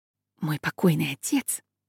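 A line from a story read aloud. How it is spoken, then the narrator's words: Whispering. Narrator (Russian): зашептал Додж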